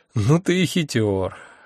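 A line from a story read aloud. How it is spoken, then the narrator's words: Sigh. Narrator (Russian): вздохнул я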